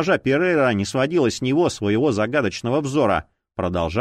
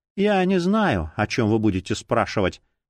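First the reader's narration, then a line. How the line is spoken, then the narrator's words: Even, level voice. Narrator (Russian): произнесла она ровным голосом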